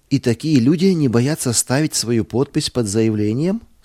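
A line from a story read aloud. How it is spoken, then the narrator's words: Plain. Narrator (Russian): спросил я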